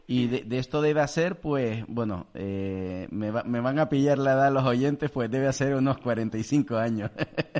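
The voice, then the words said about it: Canarian Spanish accent. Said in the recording (Spanish): “tú me oyes mi acento canario, inconfundible”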